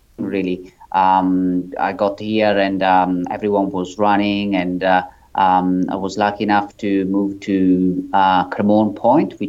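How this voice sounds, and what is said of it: Italian accent. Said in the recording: “as you can probably tell from my accent, I'm um, I'm not um, from Australia. I'm originally from Italy”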